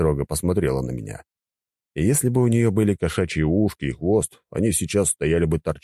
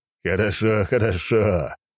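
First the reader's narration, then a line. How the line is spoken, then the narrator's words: Laughing. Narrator (Russian): рассмеялся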